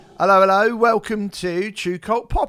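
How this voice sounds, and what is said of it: Exaggerated old-fashioned Cockney accent. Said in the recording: “in a weird sort of throwback Mary Poppins Cockney accent”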